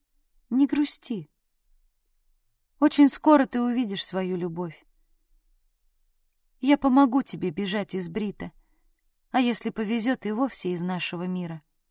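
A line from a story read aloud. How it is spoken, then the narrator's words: Soft. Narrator (Russian): Сарна мягко произнесла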